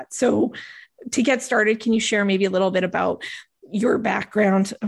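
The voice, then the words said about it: Strained, failing voice. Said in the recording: “Oh my gosh, my voice is going.”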